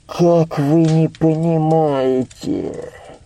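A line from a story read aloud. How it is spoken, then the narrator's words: Muffled old man. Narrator (Russian): Глухо, не отнимая ладони от лица, проговорил старик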